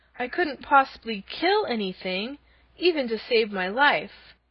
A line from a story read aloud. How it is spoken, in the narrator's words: cried Dorothy